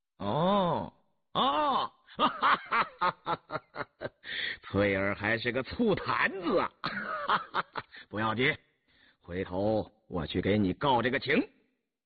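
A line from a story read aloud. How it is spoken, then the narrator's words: Laughing. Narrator (Chinese): 红丽笑了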